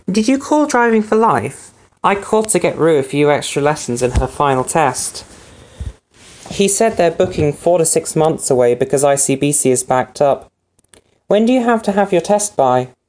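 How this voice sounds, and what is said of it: Cleaned-up posh British accent. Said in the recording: “this very cleaned up and posh British accent will be four messages from Ellie's mum”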